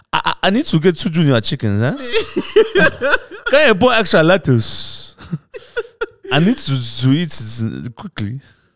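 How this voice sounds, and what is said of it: Put-on Nigerian accent. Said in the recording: “I love Nigerian accents is my favorite accent... favorite one to do”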